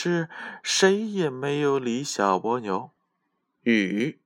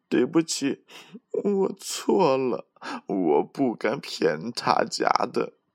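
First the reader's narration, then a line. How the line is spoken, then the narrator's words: Crying. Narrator (Chinese): 小蜗牛一边哭一边对鱼妈妈说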